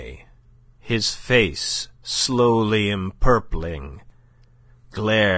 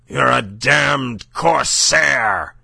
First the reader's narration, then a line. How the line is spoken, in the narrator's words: he cried thickly